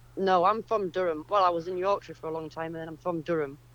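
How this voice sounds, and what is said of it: Northern English regional accent. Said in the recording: “that's not a Suffolk accent”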